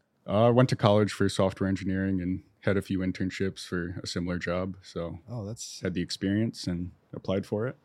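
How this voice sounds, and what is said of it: Smooth radio-style voice. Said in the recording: “You have a great radio voice.”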